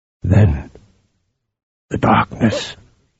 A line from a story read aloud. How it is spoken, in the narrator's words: Harim said hoarsely